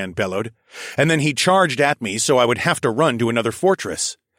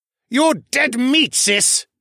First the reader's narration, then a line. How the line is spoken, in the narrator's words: roared